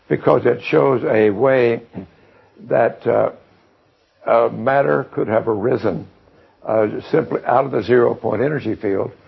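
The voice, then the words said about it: Hoarse, failing voice. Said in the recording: “excuse me, I'm losing my voice”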